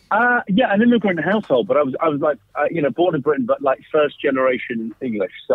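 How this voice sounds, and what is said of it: London English accent. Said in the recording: “You have quite a London accent.”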